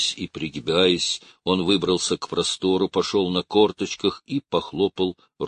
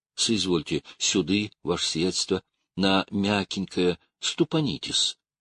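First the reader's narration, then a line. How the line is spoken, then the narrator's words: Coaxing whisper. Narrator (Russian): вышептывал он, словно подманивал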